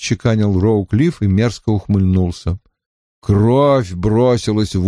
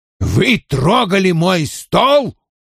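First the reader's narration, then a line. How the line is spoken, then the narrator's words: Roaring. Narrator (Russian): взревел Вульф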